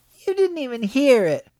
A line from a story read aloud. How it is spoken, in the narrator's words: Elsbeth whined